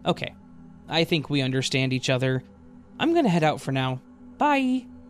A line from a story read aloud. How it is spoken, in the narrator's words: In a seriously chipper tone